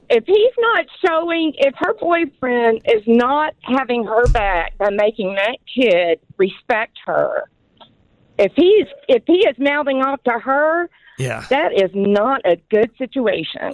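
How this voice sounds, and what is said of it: Southern American accent. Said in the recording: “You are from the South, aren't you? ... the accent”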